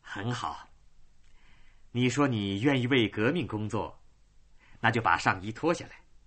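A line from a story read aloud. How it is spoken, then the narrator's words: Cold. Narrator (Chinese): 他冷冷的说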